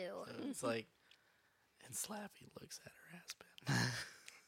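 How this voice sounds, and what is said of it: Spooky storytelling voice. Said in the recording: “he did, like, a spooky voice every single word ... It's creepy. It makes it even more creepy.”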